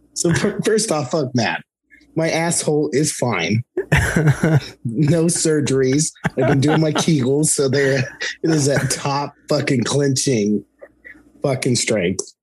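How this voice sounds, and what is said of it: Hoarse, congested voice. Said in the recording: “I got the fucking sinus / ear infection, and you can still hear that my voice is all fucked.”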